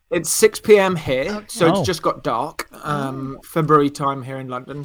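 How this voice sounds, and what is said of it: Speaks with a notable accent. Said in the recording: “he has a great accent too.”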